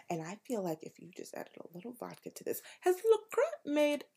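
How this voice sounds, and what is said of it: Speaks in a put-on accent. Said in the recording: “I don't know why I'm doing this accent”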